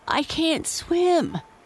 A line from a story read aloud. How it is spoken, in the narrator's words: choked